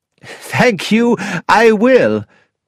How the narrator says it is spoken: laughed Dr

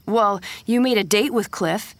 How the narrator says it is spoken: he said angrily

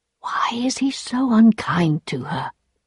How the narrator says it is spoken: whispered

